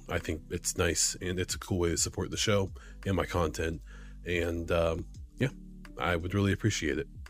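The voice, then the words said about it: Strained, hoarse, fading voice. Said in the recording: “I'm losing my voice.”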